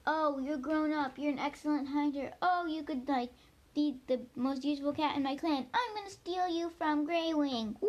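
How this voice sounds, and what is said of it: Weird put-on character voice. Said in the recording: “That was a really weird voice.”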